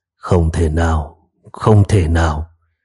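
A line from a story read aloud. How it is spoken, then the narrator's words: Astonished muttering. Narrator (Vietnamese): đạo trưởng kinh ngạc, miệng không ngừng lẩm bẩm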